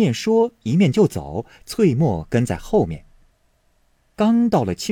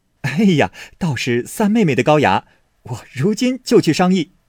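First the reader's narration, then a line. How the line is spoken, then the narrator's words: Delighted laughing. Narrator (Chinese): 宝玉 不觉喜的拍手笑道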